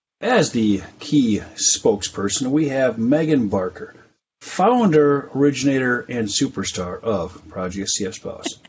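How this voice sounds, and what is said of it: Announcer-style radio voice. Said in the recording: “How is my radio voice? ... Oh, it's amazing.”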